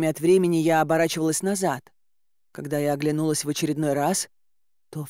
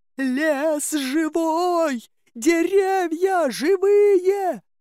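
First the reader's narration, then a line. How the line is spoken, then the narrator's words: Shouting. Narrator (Russian): закричала я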